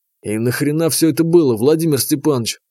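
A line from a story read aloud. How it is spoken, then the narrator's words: Hissing, barely restrained aggression. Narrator (Russian): прошипел я, с трудом сдерживая разрывающую изнутри агрессию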